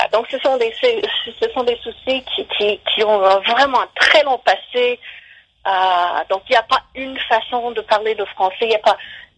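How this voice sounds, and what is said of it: French with a noticeable accent. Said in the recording (French): “mon accent un peu... vous avez un bel accent, un bel accent”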